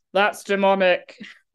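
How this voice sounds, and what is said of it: Imitates another person's voice. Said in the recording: “that is like a wild impersonation”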